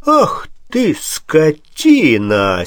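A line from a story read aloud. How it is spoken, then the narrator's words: Admiring baron's exclamation. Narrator (Russian): с некоторым восхищением воскликнул барон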